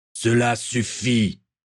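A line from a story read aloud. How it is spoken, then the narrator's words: Roar. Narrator (French): rugit Gaël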